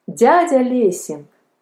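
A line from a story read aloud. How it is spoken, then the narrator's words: Cheerful exclamation. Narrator (Russian): вскакивая весело, воскликнул Палка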